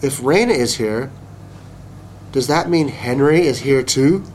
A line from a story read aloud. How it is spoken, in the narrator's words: I said slowly